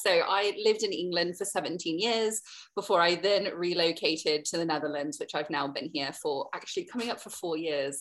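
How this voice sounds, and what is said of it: Softened Southern American accent. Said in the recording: “very deep south of America, as you can hear from my accent ... I've not lived there for a long time, which my accent suggests”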